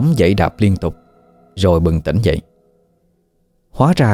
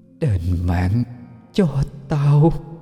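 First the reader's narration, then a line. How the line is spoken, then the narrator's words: Ghostly ceaseless whisper. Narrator (Vietnamese): Cái bóng đen kia miệng không ngừng thì thào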